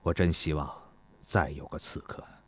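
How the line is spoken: Murmuring. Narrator (Chinese): 孙膑喃喃地说道

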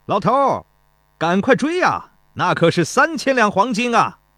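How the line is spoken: Laughing shout. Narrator (Chinese): 钟离春笑得前俯后仰，也在一旁跟着喊

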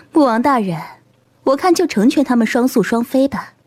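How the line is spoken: Gentle, smiling. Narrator (Chinese): 而清晨轻轻一笑，表情温和起来

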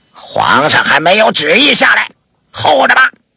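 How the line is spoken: Impatient roar from inside. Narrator (Chinese): 里面不耐烦的吼道

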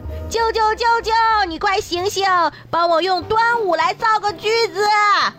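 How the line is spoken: Child calling out. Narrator (Chinese): 小外甥 一边叫

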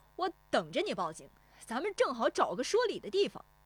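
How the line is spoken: Unafraid defiant shout. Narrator (Chinese): 石丽华也不怯他，转身喊

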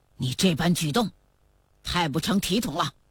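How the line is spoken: Angry shout. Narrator (Chinese): 德格类怒喝道

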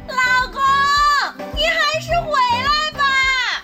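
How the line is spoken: Loud shout from another room. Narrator (Chinese): 铁柱媳妇儿在房间里大声喊道

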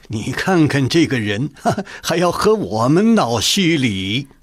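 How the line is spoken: Laughing, consoling. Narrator (Chinese): 张廷玉笑慰鄂尔泰道

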